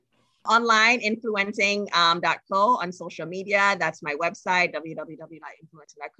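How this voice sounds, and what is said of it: Trinidadian accent. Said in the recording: “I'm from Trinidad and Tobago. And as a country, our people, we struggle with saying words that have TH in them ... I got a little accent ... It's just we struggle with the TH words.”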